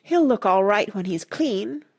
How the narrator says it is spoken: Rush said eagerly

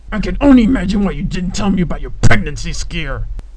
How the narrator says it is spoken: he growled

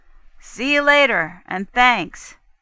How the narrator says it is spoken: Ben called out

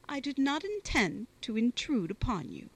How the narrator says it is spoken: said Lady Maria, suppressing the tears that rose in her eyes, and endeavouring to speak in a gay tone

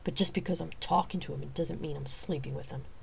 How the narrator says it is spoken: she said rather curtly

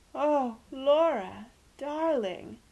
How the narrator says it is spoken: moaned Aunt Celia, who was easily made distraught by catastrophes

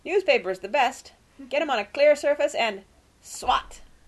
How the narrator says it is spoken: he said loudly

